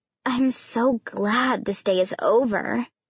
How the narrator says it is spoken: Allison moaned

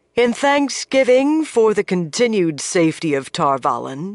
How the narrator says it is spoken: she said, her voice carrying easily to everyone

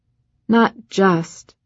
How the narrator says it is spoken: Kath said, her voice a hiccupy wheeze

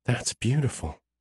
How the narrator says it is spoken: she whispers

